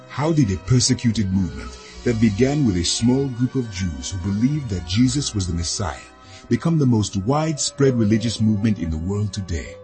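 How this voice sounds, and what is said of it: African accent. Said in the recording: “a beautiful African accent in the narration”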